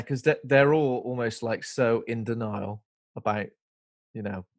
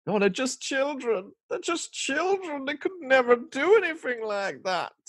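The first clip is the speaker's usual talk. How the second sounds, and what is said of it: Put-on unidentified accent. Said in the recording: “I don't know what accent I'm doing there”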